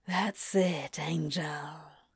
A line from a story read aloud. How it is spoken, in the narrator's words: whispers